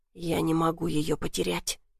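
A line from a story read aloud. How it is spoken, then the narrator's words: Hoarse rasp. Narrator (Russian): прохрипел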